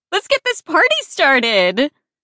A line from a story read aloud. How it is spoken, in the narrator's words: Sophia squealed